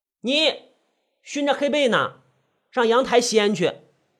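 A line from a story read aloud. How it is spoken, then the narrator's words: Loud protest. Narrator (Chinese): 宁威大声抗议道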